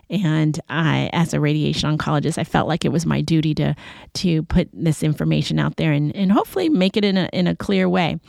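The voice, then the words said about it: Strained, failing voice. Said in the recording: “my voice is giving out, and unfortunately I am not feeling well”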